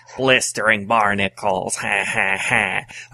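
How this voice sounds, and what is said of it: Mr. Magoo-like cartoon voice. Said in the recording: “If he was playing Mr. Magoo by the sounds of your impersonation.”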